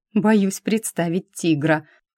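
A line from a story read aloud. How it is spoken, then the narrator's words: Short laugh. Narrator (Russian): хохотнула Лора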